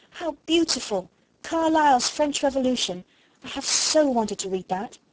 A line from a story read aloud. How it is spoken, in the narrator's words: she cried out